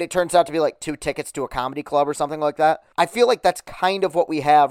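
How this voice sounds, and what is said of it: Usual voice. Nothing is said of it.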